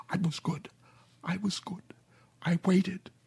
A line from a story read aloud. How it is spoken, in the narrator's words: Her mouth was all broken, though, so she could only whisper